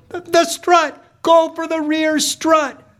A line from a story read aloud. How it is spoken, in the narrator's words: My mom yells